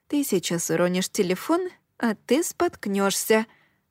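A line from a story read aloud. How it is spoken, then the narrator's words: Muttering under breath. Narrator (Russian): бормотала я себе под нос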